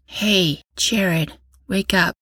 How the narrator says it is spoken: she said softly

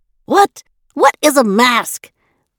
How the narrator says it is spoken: the dressmaker snapped

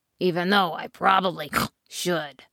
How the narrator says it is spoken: snorted the pig

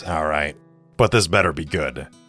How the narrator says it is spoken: Iron Gull sort of grunts and says

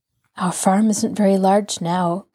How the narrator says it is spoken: Grace said quietly

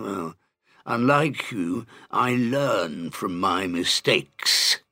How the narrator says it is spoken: sneered the wizard

